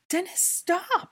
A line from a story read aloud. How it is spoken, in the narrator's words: Hermione screamed in horror